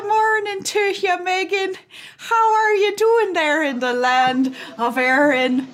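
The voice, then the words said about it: Bad put-on Irish accent. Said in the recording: “somebody's doing a horrible Irish accent ... It's real bad.”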